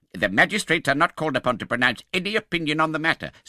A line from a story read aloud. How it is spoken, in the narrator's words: said the second old gentleman sharply